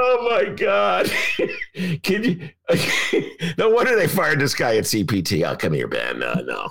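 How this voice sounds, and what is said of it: Usual voice. Nothing is said of it.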